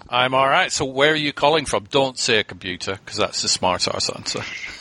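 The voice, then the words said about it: Slight Scottish accent. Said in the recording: “I've got a bit of a Scottish accent”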